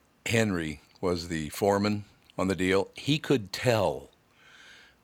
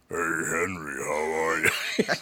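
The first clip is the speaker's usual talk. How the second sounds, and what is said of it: Deep, low groggy voice. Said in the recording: “Your voice gets so deep from boozing it up and not getting enough sleep”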